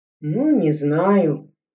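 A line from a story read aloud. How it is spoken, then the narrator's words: Uncertain drawl. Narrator (Russian): неуверенно протянул Игорь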